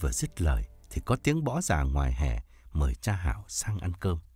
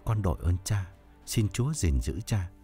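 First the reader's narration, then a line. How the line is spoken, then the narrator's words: Trembling voice. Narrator (Vietnamese): Thông run run nói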